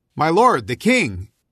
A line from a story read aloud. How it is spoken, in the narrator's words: called out after Saul